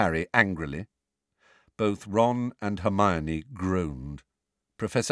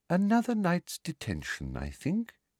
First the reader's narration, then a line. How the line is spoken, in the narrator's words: she said softly